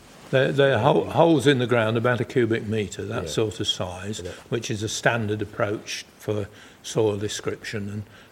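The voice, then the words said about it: Lincolnshire English accent. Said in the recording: “you can tell from my voice, I'm not West Country. I'm what is usually called a yellow belly, which is Lincolshire.”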